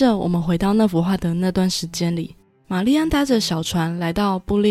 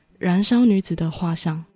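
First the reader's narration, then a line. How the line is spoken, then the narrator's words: Tearful, choked up. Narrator (Chinese): 玛丽安眼泛泪光，并且有些哽咽的回答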